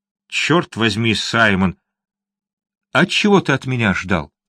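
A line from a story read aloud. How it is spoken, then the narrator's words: Sighing. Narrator (Russian): Вздохнув, Линли произнес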